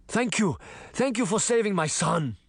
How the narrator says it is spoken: the principal cried

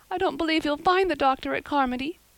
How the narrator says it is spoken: sobbed Diana

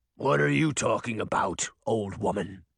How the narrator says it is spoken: Beast growled

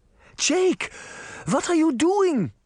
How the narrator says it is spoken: Granny cried

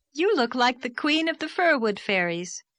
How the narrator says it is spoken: called Anne merrily

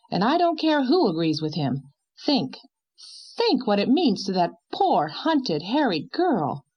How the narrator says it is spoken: cried Miss Cornelia

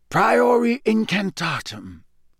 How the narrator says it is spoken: he muttered

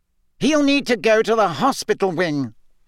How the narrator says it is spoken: Fudge was saying loudly

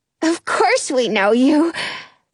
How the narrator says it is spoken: Frankie says breathlessly

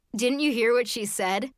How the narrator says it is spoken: Sophie asked, wiping laugh tears from her eyes

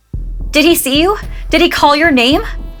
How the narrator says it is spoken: she asked in a shaking voice

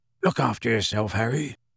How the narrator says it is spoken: He said gruffly

